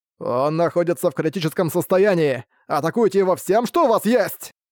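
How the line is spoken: Shouting while breathing fire. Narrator (Russian): закричал Арк, в очередной раз выдыхая пламя

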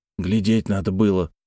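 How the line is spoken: Grumbled. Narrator (Russian): буркнул Терехов

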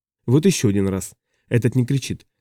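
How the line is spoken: Calm. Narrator (Russian): говорит спокойно

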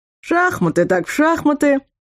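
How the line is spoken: Cheerful announcement. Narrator (Russian): бодро объявил Вархар

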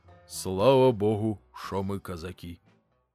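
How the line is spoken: Weary father speaking. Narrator (Russian): отец устало произносит

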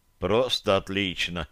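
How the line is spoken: Grumbled mutter. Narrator (Russian): буркнул я

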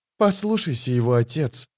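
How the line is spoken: Quiet. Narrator (Russian): тихо сказал Пауль

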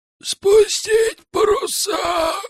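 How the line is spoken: Hoarse wheeze. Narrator (Russian): просипел тот

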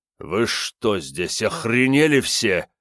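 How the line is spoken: Deep guttural growl. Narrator (Russian): утробно прорычал он

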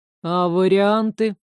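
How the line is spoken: Gloomy objection. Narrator (Russian): не менее мрачно возразил Алеста

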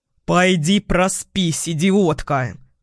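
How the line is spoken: Barked. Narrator (Russian): рявкнул

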